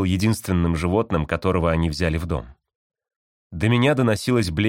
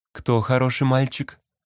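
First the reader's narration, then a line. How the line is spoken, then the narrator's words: Purring. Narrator (Russian): мурлыкнула она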